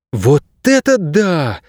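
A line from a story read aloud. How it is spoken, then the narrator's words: Exclamation. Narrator (Russian): воскликнула Кейса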